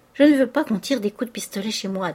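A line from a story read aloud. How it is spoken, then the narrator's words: Plain. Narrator (French): dit madame Vauquier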